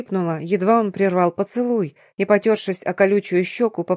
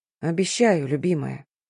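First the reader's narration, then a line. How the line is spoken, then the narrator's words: Hoarse husband's reply. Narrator (Russian): хрипло отозвался муж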